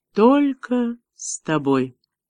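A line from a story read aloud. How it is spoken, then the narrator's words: Soft, gentle. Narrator (Russian): мягко проговорила Меган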